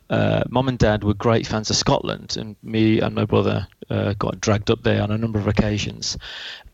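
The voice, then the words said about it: West Midlands English accent. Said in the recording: “As you can probably tell from the accent, I'm from the West Midlands.”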